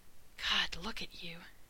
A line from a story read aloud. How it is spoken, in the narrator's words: Rodney whispered